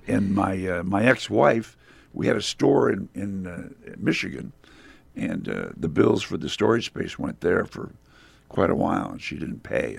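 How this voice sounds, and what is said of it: Strained, fading voice. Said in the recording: “I'm totally losing my voice.”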